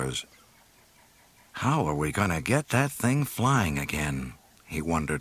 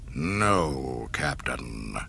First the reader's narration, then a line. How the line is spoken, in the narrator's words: he snarled